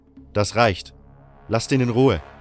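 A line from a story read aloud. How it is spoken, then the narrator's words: Sudden shout, second voice. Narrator (German): rief plötzlich eine zweite Stimme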